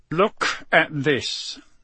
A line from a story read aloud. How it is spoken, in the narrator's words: he growled